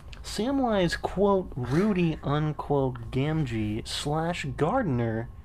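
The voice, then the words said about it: Exaggerated newscaster voice. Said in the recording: “what is that voice? ... That's my newscaster voice. ... You sound like ... the newscaster from The Simpsons ... I'm doing a news broadcast”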